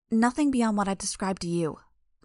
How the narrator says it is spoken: the girl said, just a bit testily

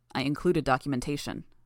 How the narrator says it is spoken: Defiant said

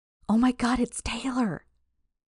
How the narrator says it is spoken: one of the girls on the outside exclaimed with glee

